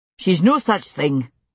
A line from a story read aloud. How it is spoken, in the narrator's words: Jamie said crossly